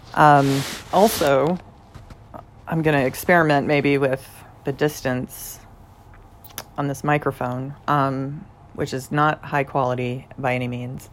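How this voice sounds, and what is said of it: Slightly hoarse voice. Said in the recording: “I may sound a little hoarse.”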